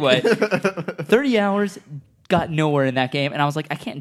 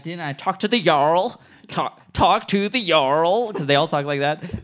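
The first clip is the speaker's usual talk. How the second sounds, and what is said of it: A badly done put-on accent. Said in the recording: “whatever accent I just did was a terrible impression”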